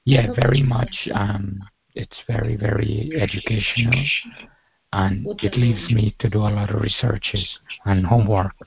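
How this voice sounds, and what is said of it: Rough, unwell-sounding voice. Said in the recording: “my voice is really bad. This week I've been really not well.”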